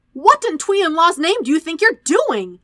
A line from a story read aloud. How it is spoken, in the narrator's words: Sokka shouted at Zuko